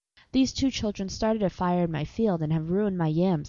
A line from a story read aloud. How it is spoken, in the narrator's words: he said